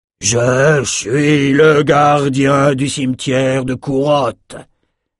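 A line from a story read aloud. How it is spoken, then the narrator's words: Thundered. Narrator (French): tonna-t-il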